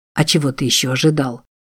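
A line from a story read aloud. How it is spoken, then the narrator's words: Whispered reply. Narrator (Russian): Тоже шепотом ответил Чарльз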